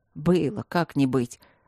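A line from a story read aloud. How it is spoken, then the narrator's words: Grumbled mutter. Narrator (Russian): буркнул Мартин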